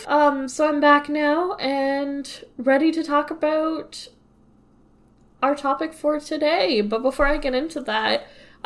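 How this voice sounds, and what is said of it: Voice slightly off from a cold. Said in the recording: “My voice isn't 100% there ... I had a cold”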